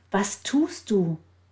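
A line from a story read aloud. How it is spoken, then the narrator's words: Unaware shouting. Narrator (German): Sie merkte nicht, dass sie schrie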